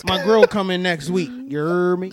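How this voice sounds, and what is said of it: Put-on Southern dialect. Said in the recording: “got a whole other accent ... picked up the dialect”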